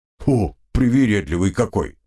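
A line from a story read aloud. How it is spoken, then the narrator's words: Grumble. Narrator (Russian): проворчал Слава-2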